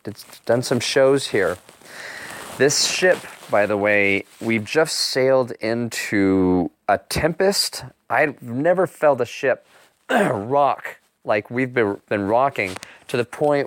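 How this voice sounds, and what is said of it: Worn, strained hoarse voice. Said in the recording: “my voice is a little shot”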